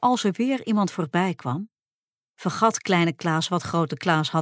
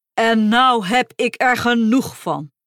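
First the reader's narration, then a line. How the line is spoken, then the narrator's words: Shouting. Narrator (Dutch): schreeuwde Grote Klaas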